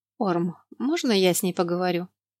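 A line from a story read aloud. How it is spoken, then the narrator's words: Timid plea. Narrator (Russian): робко попросила мать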